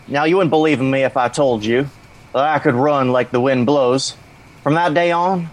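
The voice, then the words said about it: Forrest Gump character voice. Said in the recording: “I'd say my Forrest Gump one.”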